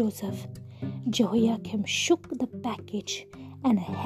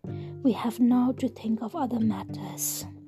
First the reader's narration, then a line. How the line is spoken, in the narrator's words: sighed